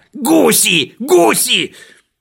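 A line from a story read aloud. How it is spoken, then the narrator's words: Shouting right into ear. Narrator (Russian): заорал прямо в ухо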